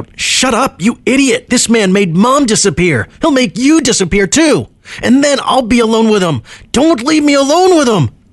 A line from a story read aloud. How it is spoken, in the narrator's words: wanted to shout